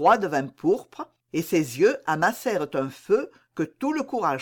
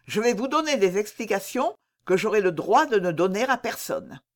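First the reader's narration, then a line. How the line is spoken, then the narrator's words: Cold reply. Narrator (French): répliqua froidement madame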